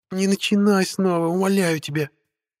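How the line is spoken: Moaning plea. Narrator (Russian): простонала ведьма

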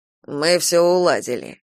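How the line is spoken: Snorting. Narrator (Russian): фыркнул Кастил

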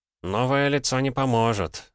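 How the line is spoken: Sighed. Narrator (Russian): вздохнул конструктор

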